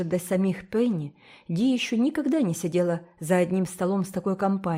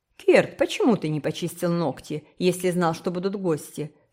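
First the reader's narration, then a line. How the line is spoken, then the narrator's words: Stern question. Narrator (Russian): строго спросила Дженни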